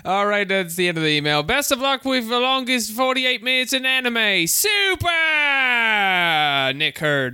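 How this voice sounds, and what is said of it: Put-on English accent, drifting Australian. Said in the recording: “This has really tested the limits of my English accent ... That was pretty good. You didn't waver. You didn't turn into Irish at any point. ... for a couple seconds, it did feel Australian, but you came in and out.”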